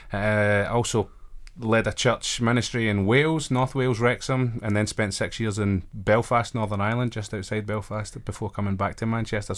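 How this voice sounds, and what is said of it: Glaswegian Scottish accent. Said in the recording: “I've got a regional accent. I recognise one when I hear it ... this show might need to come with subtitles or a translator ... I'm originally from Glasgow, up in Scotland.”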